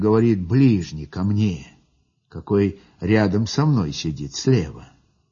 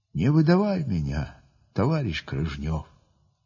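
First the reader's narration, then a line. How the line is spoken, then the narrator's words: Quiet. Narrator (Russian): взводный тихо так говорит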